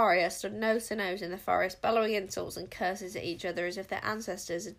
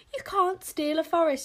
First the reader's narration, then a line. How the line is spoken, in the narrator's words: yelled Wish